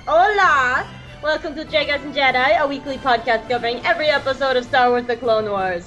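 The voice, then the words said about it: Put-on accent. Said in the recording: “I don't know what accent this is, so I'm going to stop.”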